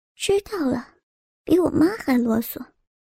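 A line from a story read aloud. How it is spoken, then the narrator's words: Barely audible murmur. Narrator (Chinese): 左婉儿…用只有自己才能听见的声音轻声说道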